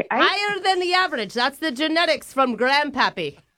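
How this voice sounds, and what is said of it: Mixed put-on British Isles accent. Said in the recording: “my Australian, Irish, British, Scottish accent? ... It's really hard to listen to”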